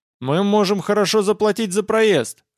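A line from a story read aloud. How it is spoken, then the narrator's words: Shout. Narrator (Russian): крикнул я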